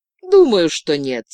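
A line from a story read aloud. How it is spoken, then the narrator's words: Said with joyless throaty laugh. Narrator (Russian): сказала девушка и засмеялась тем самым гортанным смехом, в котором не было веселья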